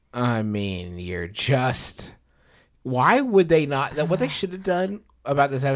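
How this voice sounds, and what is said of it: Usual voice. Nothing is said of it.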